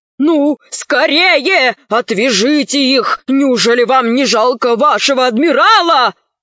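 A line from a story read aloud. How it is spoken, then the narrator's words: Admiral shouting. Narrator (Russian): закричал адмирал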